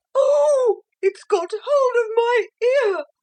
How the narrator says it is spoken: she screamed

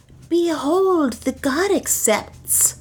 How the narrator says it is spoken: cried Nam

